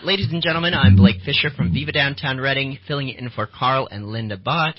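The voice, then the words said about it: Husky voice from a cold. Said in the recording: “I have a cold this morning, which is why my voice is a little more sultry.”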